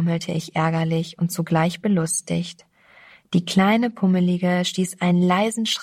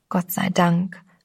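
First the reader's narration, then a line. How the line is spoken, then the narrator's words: Young girl whispering. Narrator (German): flüsterte das junge Mädchen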